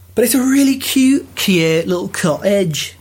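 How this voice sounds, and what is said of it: Unidentified put-on accent. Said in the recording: “I don't know what accent that was”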